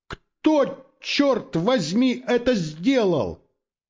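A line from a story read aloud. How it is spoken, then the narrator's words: Shouted through cupped hands. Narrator (Russian): сложив руки рупором, Торклисон крикнул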